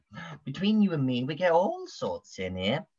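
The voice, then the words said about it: Put-on character accent, drifting Canadian. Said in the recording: “I'm going to try the accent. Sometimes it goes a bit Canadian”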